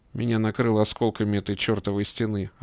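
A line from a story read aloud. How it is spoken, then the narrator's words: Plain. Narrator (Russian): ответил я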